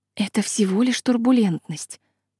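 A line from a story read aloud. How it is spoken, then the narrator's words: Soft explanation. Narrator (Russian): мягко пытаюсь объяснить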